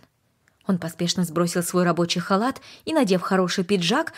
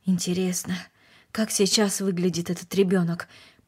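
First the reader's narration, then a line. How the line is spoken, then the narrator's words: Muttered. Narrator (Russian): пробормотал он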